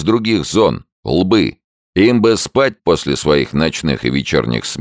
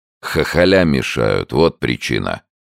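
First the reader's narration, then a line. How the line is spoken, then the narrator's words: Gloomy. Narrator (Russian): мрачно добавил второй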